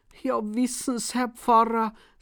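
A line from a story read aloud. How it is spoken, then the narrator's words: Cheerful, beaming. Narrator (German): sagt und lacht übers ganze Gesicht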